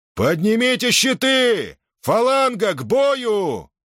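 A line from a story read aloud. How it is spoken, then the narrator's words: Roar. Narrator (Russian): проревел он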